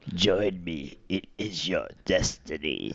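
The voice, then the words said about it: Darth Sidious character voice impression. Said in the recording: “do a Darth Sidious impression ... Oh, that's pretty good.”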